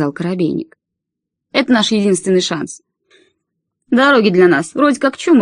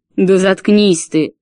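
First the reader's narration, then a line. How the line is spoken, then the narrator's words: Husband's roar. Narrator (Russian): взревел ее муж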